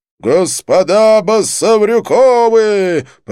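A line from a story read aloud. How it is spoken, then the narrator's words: Servant roaring loudly. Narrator (Russian): проревел во все горло лакей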